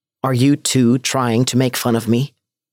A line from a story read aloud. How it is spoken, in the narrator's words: I said, with my voice quavering